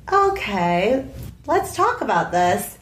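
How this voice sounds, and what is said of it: Calm imitation of another person. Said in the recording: “your impression of me was so calm”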